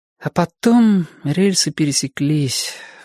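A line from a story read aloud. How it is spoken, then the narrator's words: Sighing. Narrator (Russian): вздохнул он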